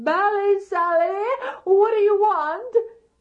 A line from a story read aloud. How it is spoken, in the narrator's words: he put his hands up to his mouth and he hollered